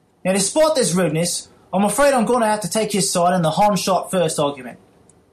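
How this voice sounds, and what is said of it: Put-on British accent. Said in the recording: “how dare Mikey Ravenshadow question my British accent? I'll have you know it's as authentic as Gwyneth Paltrow's”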